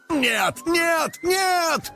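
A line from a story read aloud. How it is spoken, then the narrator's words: Screaming at full volume. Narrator (Russian): во все горло вопил Карыч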